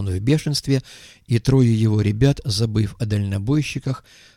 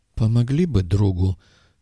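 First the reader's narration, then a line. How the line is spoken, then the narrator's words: Uncertain. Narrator (Russian): неуверенно сказал бармен Доку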